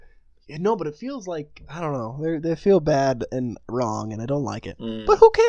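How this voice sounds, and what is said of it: Usual voice. Nothing is said of it.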